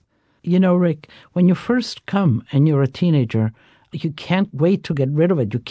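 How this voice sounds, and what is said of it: Italian accent. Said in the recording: “your Italian accent”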